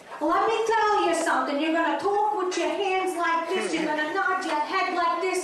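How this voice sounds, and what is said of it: Brooklyn accent. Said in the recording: “Brooklyn. My father was from Brooklyn. That's how I got this accent.”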